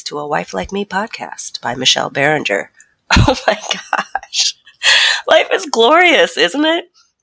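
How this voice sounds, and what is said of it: Stuffy, congested voice from cold. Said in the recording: “I have a cold. ... stuffy nose and sexy voice”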